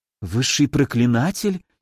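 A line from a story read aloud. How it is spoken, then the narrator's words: Frightened mutter. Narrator (Russian): испуганно пробормотала Ира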